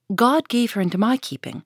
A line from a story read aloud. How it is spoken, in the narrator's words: repeated Hester Prynne, raising her voice, almost to a shriek